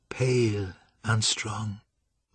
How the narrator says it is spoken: murmured Cynthia from the far corner of the room

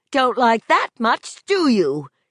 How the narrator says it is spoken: She shrieked triumphantly at it

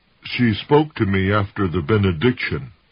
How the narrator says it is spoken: Rudolph said

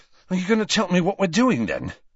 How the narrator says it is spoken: asked Ron, panting slightly

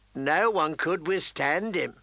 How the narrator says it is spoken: the hound rasped

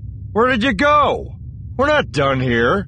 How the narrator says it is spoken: He yelled

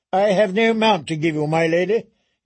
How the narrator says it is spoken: he said

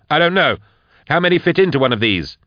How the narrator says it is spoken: snapped Nail

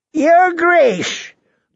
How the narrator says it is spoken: Lord Walder called out to Rob

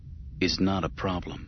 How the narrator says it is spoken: he murmured

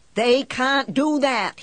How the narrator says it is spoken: he yells

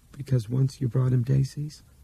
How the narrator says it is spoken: seemed to almost laugh

